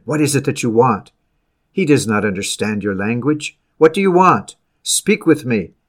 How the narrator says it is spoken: Facing them sternly, I demanded

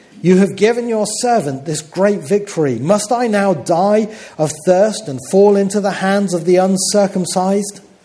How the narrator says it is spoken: Because he was very thirsty, he cried out to the Lord

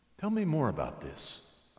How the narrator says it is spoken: said

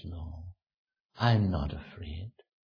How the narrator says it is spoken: in a weak voice she says

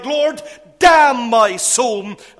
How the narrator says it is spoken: he cried

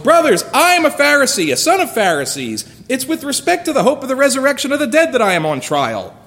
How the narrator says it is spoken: he cried out in the council

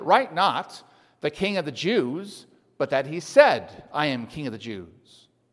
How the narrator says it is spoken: Pilate answered

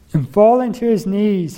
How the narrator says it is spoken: he cried out with a loud voice

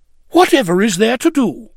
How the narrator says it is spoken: The shoemaker's wife was astonished, and in her astonishment exclaimed

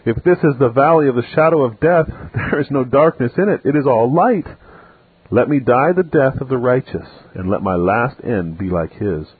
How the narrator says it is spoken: Another exclaimed

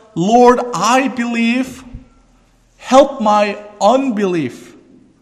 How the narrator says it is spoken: out of desperation, with tears, he cried out

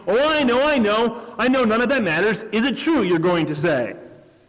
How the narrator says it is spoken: she exclaimed

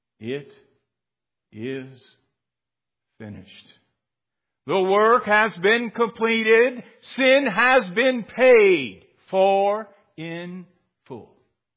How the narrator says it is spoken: with a loud voice shouted for all humanity to hear

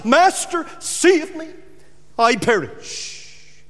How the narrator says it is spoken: And he cries

